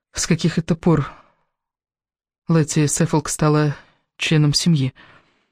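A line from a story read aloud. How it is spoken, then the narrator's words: Whisper. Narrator (Russian): прошептала Элис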